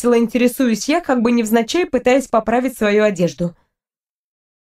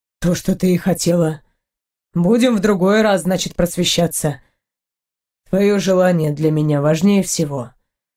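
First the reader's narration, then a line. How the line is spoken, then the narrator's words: Calm man's reply. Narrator (Russian): спокойно ответил мужчина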